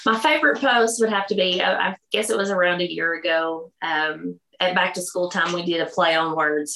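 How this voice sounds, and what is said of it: Southern American accent. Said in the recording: “You could probably tell by my accent that it's pretty Southern.”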